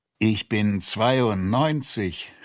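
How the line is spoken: Groaning. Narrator (German): stöhnte er

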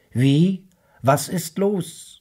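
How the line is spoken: Calling back. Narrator (German): rief zurück

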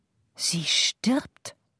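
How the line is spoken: Breathy whisper. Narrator (German): hauchte Madame Chaffroy

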